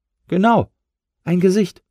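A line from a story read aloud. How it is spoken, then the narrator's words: Agreeing squeak. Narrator (German): piepste Flora zustimmend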